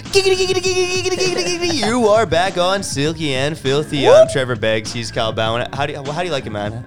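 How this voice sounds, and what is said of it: Cartoon character impression voice. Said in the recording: “How do you like my Quagmire impression? ... giggity giggity giggity”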